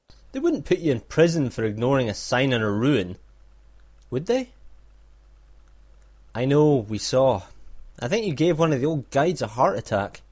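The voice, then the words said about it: Scottish accent. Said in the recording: “his Scottish accent”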